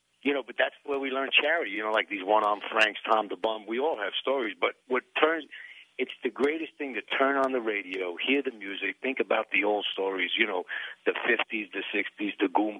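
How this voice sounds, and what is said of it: Italian-American New York accent. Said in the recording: “Oh, you were Lower East Side. And what, you were Italian? ... Yeah, I can hear it in your accent.”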